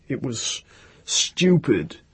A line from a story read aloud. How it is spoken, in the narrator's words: he said in his hoarse, thick voice